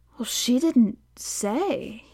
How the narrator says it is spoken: he murmured

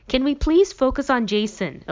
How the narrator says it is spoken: Elizabeth snaps

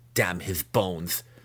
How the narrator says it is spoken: Massage spat

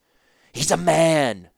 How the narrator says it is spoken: snarled

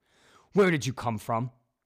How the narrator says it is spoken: He shouted

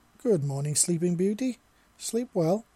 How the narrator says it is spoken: he asked in a cheerful voice

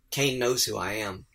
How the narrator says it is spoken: Selena sighed and quietly said

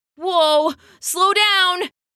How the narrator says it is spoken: he cried

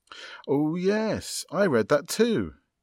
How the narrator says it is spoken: exclaimed Jennifer

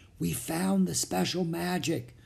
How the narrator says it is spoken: whispered

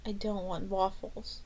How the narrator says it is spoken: Debbie murmured

